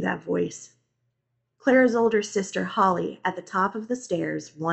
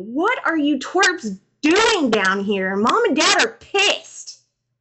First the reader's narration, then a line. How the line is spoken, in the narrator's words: A dark figure surrounded by light shouted down at me